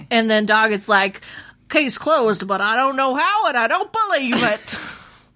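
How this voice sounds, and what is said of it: Puts on an accent. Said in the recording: “my accent? ... I felt like it was really good. ... Yeah, it was very good.”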